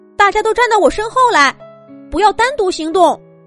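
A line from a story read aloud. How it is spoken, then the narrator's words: Loud shout. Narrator (Chinese): 凉凉在恐龙博士身后大喊了一声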